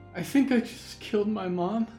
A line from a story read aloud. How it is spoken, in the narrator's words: Clara sobbed